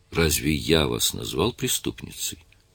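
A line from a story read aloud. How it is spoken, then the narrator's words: Calm question. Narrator (Russian): спокойным голосом спросил Адам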